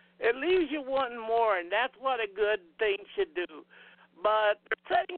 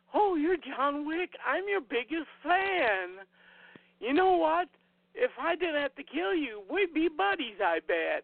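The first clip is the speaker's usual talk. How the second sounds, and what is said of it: Mimics an excited fanboy voice. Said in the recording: “talking like a fanboy.”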